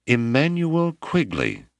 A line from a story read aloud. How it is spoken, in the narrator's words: Malama cried